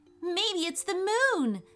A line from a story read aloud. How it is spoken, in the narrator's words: said Ethan excitedly